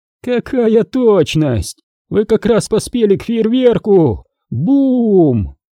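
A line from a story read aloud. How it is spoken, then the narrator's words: Shouting. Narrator (Russian): крикнул он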